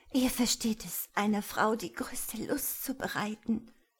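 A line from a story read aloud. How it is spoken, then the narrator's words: Hoarse. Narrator (German): sagte sie heiser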